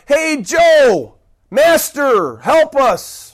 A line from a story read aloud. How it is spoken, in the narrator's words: Nobody else just called out